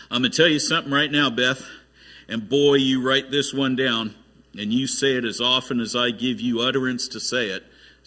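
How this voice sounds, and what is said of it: Put-on southern accent. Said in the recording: “Apparently God speaks in a southern accent.”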